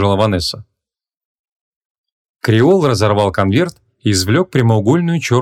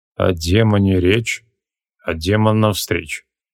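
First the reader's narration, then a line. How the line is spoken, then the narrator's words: Through gritted teeth. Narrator (Russian): процедил Креол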